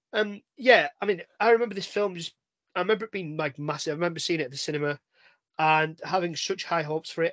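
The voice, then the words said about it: Slightly hoarse, unwell voice. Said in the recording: “Under the weather just means we're both a bit ill ... Probably won't sound any different my way, except a bit more hoarse”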